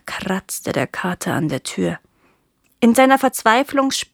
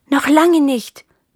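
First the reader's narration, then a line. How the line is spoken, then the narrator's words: Chick peeping. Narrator (German): piepste das Küken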